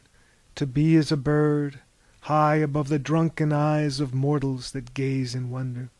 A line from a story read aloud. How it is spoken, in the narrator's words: sighed the captain